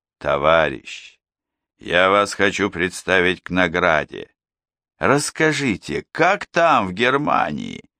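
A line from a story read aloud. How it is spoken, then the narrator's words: Affectionate, gentle speech. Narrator (Russian): вождь ласково говорит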